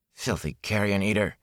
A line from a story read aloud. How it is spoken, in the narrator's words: he muttered